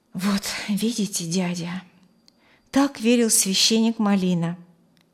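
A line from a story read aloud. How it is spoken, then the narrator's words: Whisper. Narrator (Russian): прошептал Палка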